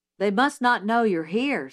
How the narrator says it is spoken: said Jim

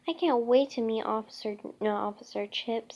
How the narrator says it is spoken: said Frank

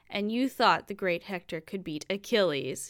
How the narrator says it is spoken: he roared

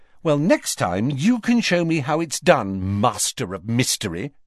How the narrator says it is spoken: she snapped

